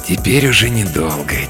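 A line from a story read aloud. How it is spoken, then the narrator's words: Quiet speech. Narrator (Russian): тихо говорит он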